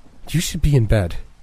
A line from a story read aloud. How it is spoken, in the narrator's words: Tessa cried